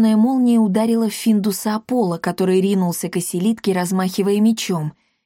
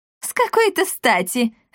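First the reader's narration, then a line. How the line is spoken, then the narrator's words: Loud laughter. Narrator (Russian): расхохоталась Бия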